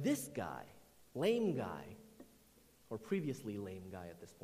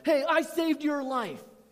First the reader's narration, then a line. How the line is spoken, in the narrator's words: Incredible yells